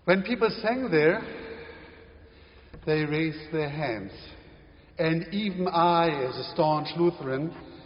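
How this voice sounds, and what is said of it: German accent. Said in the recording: “my own German accent”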